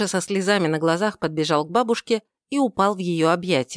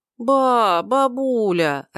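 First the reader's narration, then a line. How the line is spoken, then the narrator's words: Whimpering child's voice. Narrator (Russian): раздался хныкающий голос внука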